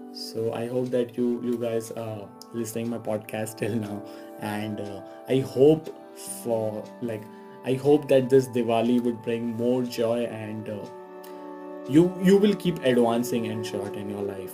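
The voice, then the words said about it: Strained voice from illness. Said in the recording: “sorry for my voice again. My health is not that good”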